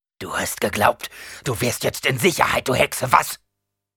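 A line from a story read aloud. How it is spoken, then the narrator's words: Growled. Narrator (German): knurrte Gurney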